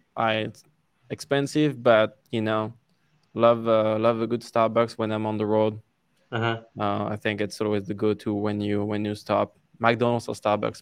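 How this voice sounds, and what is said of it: French accent in English. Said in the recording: “my French accent, they never understand what I'm saying”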